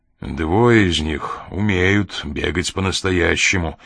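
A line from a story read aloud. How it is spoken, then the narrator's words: Gloomy remark. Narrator (Russian): мрачно заметил Коридон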